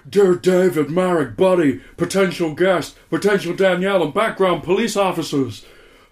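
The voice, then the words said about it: Nicolas Cage impression. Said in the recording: “Can you go for Nick Cage in full Vampire's Kiss mode ... Do you want to pick one? Jamaican or Nicolas Cage. ... Nicolas Cage”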